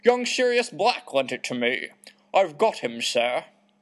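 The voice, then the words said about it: Dopey put-on accent for Hagrid. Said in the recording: “I don't know if that's a good accent for him. I want it to be like a doofus”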